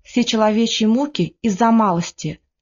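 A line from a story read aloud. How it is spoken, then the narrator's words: Listless, calm. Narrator (Russian): Тихон вяло сказал спокойно, как всегда говорил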